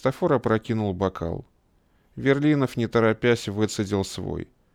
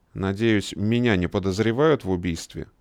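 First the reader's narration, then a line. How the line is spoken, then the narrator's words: Plain question. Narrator (Russian): спросил Верлинов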